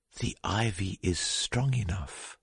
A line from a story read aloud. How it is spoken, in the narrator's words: she had whispered